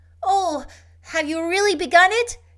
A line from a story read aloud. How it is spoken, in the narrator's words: cried Diana, all alight with eager interest in a moment